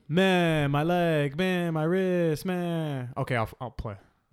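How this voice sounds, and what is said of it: Impression of David Johnson. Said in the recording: “give us your David Johnson impersonation.”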